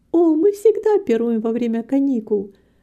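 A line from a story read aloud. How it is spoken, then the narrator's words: Joyful. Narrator (Russian): радостно сказала Рита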